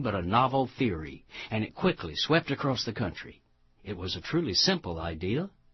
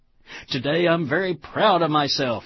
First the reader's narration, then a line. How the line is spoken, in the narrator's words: exclaimed the strangely coiffed ego who takes pride in being proud of himself